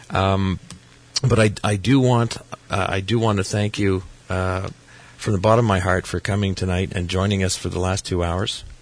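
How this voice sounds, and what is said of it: Strained, fading voice. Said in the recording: “as you can tell, I'm losing my voice ... it's just late at night this happens to me”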